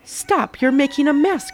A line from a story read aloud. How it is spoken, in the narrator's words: cried the first hen